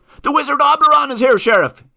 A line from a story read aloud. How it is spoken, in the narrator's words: yelled Martina